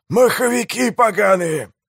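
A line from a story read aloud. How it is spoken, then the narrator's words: Growling. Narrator (Russian): прорычал Пиви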